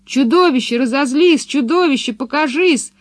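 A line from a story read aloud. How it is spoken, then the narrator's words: Children yelling, puzzled. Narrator (Russian): вопили ребята, удивленные тем, что чудовище так долго не показывается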